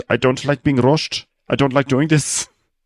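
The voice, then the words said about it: Put-on Liverpool accent. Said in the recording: “Jack is basically ... doing like a Liverpool accent... if I'm doing Liverpool accent”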